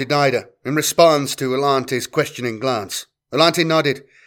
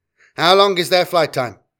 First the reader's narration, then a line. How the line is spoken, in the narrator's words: he asked